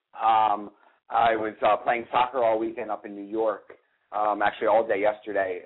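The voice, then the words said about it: Sick-sounding voice. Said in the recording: “I'm a little sick, as you can hear in my voice.”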